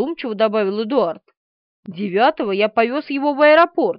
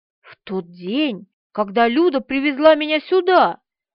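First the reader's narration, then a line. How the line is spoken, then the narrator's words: Exclaiming. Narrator (Russian): воскликнула Полина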